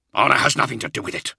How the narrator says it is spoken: Israfael snarled

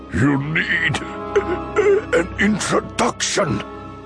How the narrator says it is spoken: Dooku choked out

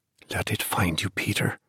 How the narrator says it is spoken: murmured

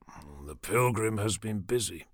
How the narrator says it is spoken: Carminus muttered

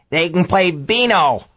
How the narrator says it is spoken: old Frank cackled

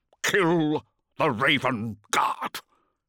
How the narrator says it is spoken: Corfearan growled through bleeding lips

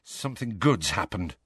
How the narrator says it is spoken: mumbled Harry

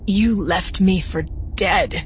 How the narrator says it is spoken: she croaked

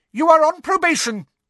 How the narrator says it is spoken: shrieked Professor Umbridge

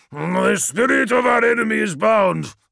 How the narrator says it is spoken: snarled Bjarki

